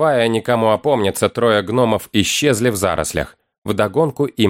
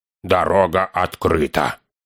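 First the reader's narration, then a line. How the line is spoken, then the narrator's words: Hoarse. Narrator (Russian): хрипло сказал он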